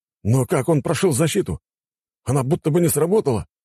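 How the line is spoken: Assistant exclaiming. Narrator (Russian): воскликнул помощник

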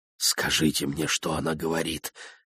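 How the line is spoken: Whisper from below. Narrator (Russian): прошептал Федоров снизу

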